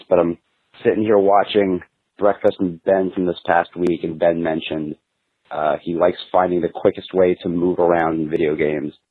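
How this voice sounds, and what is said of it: Hoarse, raspy voice. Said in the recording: “Got a bit of laryngitis”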